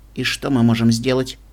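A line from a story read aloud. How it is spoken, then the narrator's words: Cold adult female voice. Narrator (Russian): холодно ответила взрослая пегасочка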